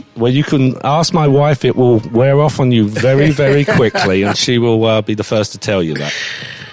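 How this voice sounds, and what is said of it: English accent. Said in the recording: “I'm actually tall for an Englishman ... love that accent”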